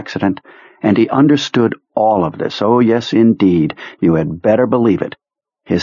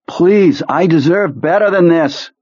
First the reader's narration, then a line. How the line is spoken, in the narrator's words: cried